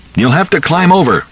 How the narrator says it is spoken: shouted

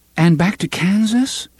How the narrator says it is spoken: She asked eagerly

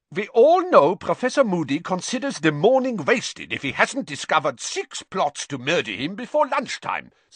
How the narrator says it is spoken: said Karkaroff loudly

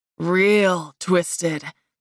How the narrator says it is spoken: growled

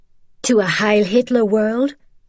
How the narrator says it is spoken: Isabel said with a sneer

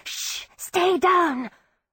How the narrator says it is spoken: hissing

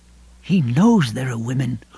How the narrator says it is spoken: Lois murmured

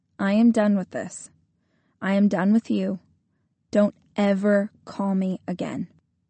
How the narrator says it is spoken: Calmly and without any dramatics, I told him

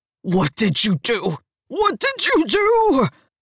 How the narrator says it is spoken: gasps

